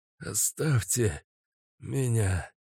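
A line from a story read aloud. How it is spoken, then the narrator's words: Exhausted, forced out. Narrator (Russian): Из последних сил выдавил Каша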